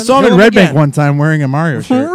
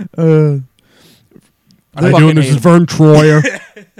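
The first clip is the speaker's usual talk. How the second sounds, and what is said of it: Imitates another person's voice. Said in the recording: “That's a great impression.”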